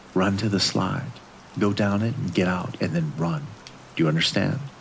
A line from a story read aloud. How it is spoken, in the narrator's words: I put my mouth to Zoe's ear and whispered